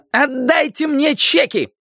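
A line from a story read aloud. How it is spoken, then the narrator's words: Angry shout. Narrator (Russian): крикнула она, топнув ногой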